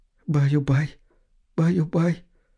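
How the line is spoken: Tearful whisper. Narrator (Russian): шептала женщина сквозь слезы

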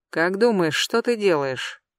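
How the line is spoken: Quiet question over shoulder. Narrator (Russian): тихо спрашивает он у меня за плечом

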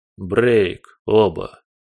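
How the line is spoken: Grim command. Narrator (Russian): мрачно приказал он

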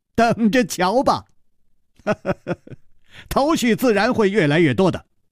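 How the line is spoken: Smiling. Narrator (Chinese): 楚留香微笑着说

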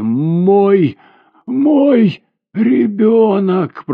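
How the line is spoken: Anguished moan. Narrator (Russian): простонала она

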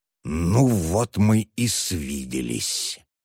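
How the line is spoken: Close-up hiss. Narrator (Russian): приблизил к нему свое лицо и прошипел

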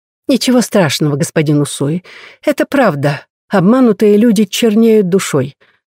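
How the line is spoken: Calm, confident answer. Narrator (Russian): спокойно и уверенно отвечает госпожа Мийо

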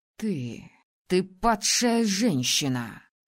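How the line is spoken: Spat out angrily. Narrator (Russian): злобно выплюнул Маршен

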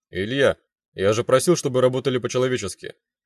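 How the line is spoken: Icy cold tone. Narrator (Russian): ледяным тоном произнес

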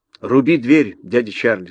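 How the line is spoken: Plain. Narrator (Russian): сказала Элли

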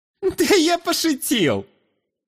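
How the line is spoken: Cheerful young man's giggle. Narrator (Russian): Весело хихикнул парень

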